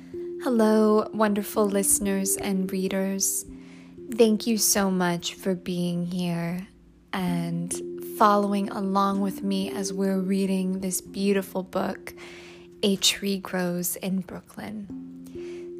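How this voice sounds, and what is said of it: Slightly hoarse, throaty voice. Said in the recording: “I have a little bit of a frog in my throat, ... I will need to take moments here and there to clear my throat”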